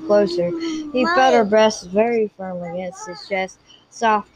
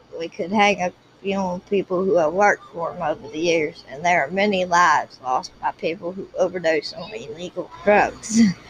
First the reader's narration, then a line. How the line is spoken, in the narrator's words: he added grimly